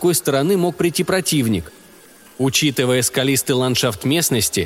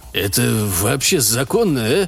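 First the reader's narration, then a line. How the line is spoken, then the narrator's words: Muttering. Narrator (Russian): пробормотал один из бойцов когтя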